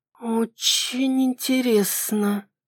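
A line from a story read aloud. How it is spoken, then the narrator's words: Drawled. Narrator (Russian): протянула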